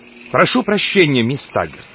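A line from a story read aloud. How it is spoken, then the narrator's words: Offended tone. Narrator (Russian): произнес главный инженер оскорбленным тоном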